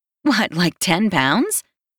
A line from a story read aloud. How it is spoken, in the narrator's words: She laughs at me like I'm being ridiculous